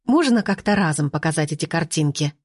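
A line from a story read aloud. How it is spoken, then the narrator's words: Irritated question. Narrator (Russian): раздраженно спросила Анетта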